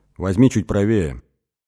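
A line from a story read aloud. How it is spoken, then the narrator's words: Calm. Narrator (Russian): сказала она спокойно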